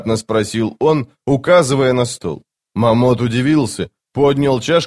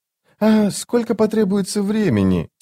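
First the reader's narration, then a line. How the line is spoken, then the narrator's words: Quiet question. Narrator (Russian): тихо спросил он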